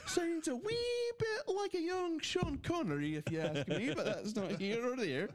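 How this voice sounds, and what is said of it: Put-on Scottish accent. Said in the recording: “I kind of wish you would have spoken in a Scottish accent the entire show”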